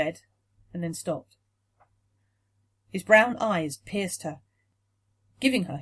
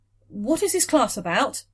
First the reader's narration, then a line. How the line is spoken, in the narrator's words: blurted